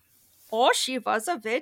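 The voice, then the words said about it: Put-on accent, character impression. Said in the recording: “I don't know what accent ... That was a good accent ... That's my impression of exactly what he sounded like”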